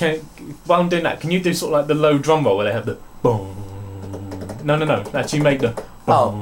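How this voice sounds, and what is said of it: Usual voice. Nothing is said of it.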